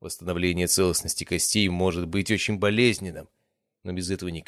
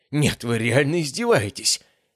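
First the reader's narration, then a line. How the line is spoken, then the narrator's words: Young man hissing through clenched teeth. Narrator (Russian): прошипел парень, стиснув зубы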